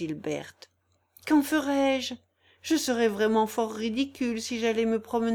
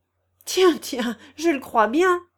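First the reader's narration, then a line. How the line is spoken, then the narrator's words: Exclaiming. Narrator (French): s'écria Janille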